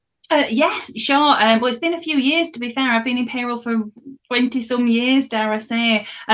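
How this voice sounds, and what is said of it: Northern English accent. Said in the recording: “accent. So ... from like the north part of the UK, and she has one of the loveliest accents I can listen to all day”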